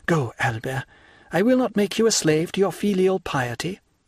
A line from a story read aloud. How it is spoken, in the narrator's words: replied Mercedes, sighing